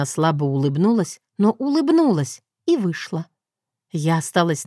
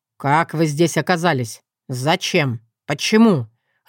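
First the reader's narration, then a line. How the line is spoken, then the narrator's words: Growling. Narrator (Russian): рыкнул мистер Тарнелл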